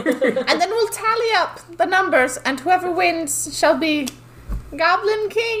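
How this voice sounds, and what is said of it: Professor McGonagall-like voice, without British accent. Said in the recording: “You were exactly one British accent away from Professor McGonagall. If you would have just thrown British into it”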